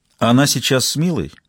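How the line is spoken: Calm inquiry. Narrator (Russian): Спокойно поинтересовалась Глассер

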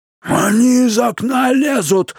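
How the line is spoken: Yelling from below. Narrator (Russian): заорал дядя Абнер, стоявший внизу

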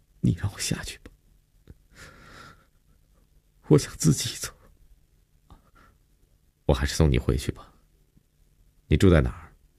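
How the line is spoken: Choked sobbing. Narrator (Chinese): 悠悠哽咽着说

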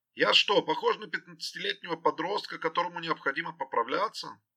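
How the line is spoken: Mock-angry shout. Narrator (Russian): крикнул Генри жене, притворившись рассерженной

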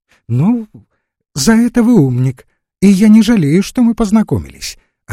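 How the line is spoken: Cheerful woman's reply. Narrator (Russian): отвечала ему весело попадья

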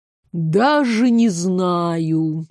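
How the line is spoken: Mocking drawl. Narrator (Russian): с явной издевкой протянул тот

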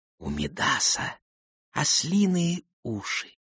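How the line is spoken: Soft whisper. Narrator (Russian): росток тихонько прошептал

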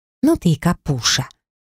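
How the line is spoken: Hissed. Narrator (Russian): прошипела Айрата

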